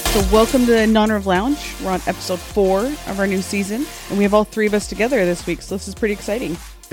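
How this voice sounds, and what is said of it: Polished radio announcer voice. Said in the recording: “It sounds like you just turned on your radio voice. ... This is my announcement voice.”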